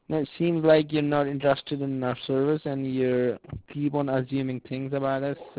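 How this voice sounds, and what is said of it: Indian accent. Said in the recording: “you just have an Indian accent.”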